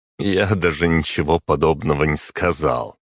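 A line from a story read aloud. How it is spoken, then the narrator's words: Laughing. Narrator (Russian): рассмеялся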